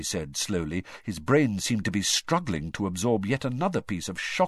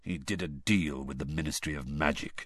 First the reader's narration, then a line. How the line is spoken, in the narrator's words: said Sirius bitterly